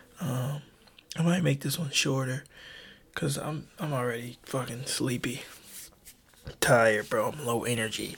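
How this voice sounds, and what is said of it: Whispering. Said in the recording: “That's why I'm whispering.”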